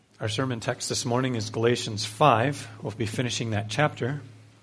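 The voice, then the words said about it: Quiet, strained recovering voice. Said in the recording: “My voice is a little bit better than last week, but it's not perfect yet ... I'm speaking quiet”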